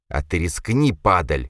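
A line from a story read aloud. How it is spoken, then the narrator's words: Thug growling. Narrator (Russian): прорычал бычара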